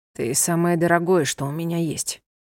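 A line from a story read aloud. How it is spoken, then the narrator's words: Calm. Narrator (Russian): спокойно произнес он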